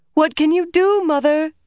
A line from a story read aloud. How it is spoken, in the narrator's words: Beldine cried